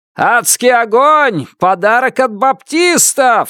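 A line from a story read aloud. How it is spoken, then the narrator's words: Yelling from the street. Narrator (Russian): заорал кто-то на улице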